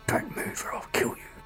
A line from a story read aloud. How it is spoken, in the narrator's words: A man wearing a grey mask whispered angrily